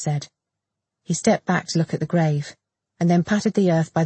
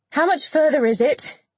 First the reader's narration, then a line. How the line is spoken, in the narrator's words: she asked, raising her voice to be heard over the sound of the rain hitting the large leaves of palms around them